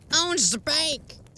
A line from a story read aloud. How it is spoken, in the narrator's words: the sheriff said